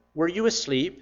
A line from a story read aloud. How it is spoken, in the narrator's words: I asked him